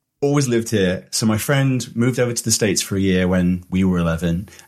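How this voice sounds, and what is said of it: UK accent. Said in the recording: “That's what I assumed based on the accent”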